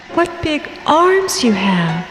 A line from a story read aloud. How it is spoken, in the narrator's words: she exclaimed